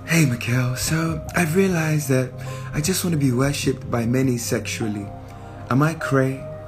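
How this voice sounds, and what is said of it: Imitates another person's voice. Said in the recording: “I gotta read this in my Jenny Francis voice.”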